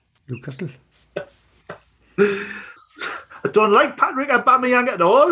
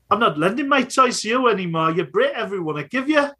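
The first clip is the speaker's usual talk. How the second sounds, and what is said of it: Imitates another person's voice, Newcastle-like accent. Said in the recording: “my Mikel Arteta impression. ... He spent a lot of time in London and Glasgow, so his accent is just landed right in the middle, which is Newcastle.”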